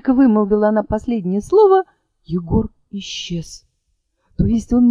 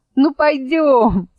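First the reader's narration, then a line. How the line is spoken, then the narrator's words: Laughing. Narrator (Russian): смеясь сказала елочка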